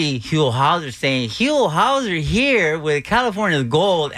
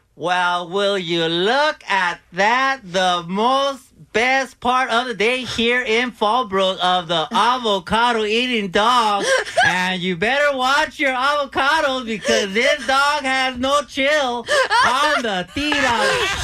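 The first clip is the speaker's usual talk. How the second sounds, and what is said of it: Imitates another person's voice. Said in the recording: “your best impression ... This is Huel.”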